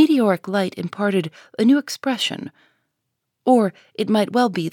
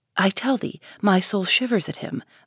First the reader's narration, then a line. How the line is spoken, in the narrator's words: muttered the minister again